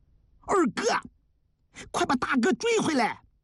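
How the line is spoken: Urgent clamoring shout. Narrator (Chinese): 一直没说话的张杰这时嚷了起来

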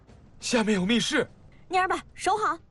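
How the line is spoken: Shouting. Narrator (Chinese): 宗南海看到叶一茜跑过来，指着棺材喊

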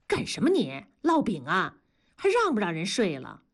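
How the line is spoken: Plain. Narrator (Chinese): 同志就说

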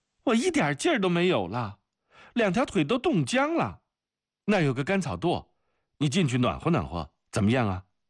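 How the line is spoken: Groaning complaint. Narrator (Chinese): 阿克西尼亚就哎呀哎呀地叫了起来

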